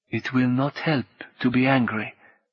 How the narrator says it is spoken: Martine said gently

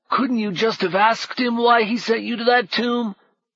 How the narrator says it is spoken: The thief was wheezing very convincingly

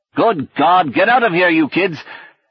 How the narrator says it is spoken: shouted

